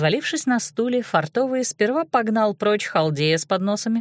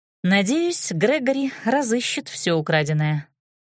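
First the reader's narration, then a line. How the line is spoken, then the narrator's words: Sighing. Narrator (Russian): Вздохнула и сказала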